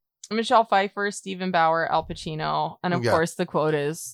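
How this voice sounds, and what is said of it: Usual voice. Nothing is said of it.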